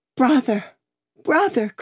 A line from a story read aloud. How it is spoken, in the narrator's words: cried Miss Pross, bursting into tears